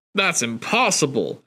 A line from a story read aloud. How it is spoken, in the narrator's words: Albert sputtered